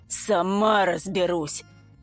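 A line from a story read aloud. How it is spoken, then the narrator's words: Grumble. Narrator (Russian): буркнула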